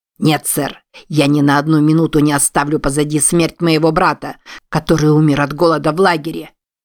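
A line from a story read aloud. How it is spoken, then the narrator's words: Sharp, curt. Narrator (Russian): резко бросил Крак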